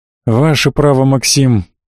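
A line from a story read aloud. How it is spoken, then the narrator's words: Disappointed sigh. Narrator (Russian): разочарованно вздохнул посол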